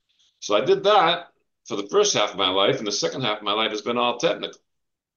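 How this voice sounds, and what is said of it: New England accent. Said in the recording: “I grew up in New England, Massachusetts. If you couldn't tell by my accent.”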